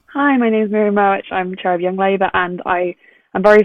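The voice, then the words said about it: Voice affected by flu. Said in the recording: “sorry about my voice. I have conference flu.”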